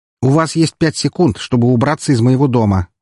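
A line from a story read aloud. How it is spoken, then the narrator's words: Shout. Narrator (Russian): выкрикнул Эмилио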